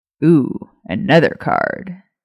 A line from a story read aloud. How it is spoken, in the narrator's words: James chuckled